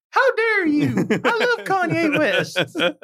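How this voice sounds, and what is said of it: Mickey Mouse cartoon voice impression. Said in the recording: “That's a pretty good Mickey impression you got”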